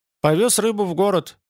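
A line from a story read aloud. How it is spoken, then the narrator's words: Crushed, despondent voice. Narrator (Russian): ответил Ютланд убитым голосом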